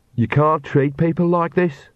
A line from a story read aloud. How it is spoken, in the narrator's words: said Agnes sullenly